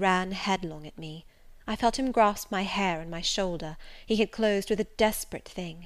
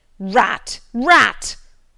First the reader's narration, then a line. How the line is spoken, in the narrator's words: and bellowed out aloud